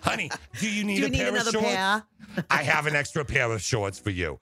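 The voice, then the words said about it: Put-on New York accent. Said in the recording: “I just love those the New York accent”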